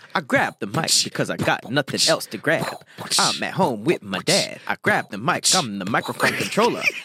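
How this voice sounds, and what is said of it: Old school rap impression. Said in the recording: “old school rap ... your best impression”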